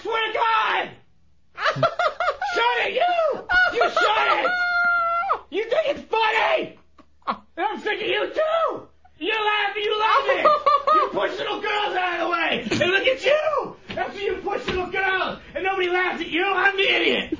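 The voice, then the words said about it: Angry yelling. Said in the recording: “Why are you yelling?”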